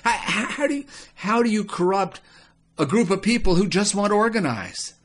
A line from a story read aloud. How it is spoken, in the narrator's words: Baal sighed